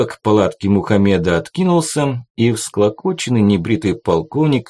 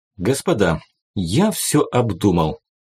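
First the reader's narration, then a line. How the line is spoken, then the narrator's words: Quiet. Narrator (Russian): негромко проговорил он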